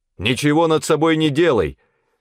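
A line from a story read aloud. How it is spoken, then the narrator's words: Loud shout. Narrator (Russian): закричал громким голосом Павел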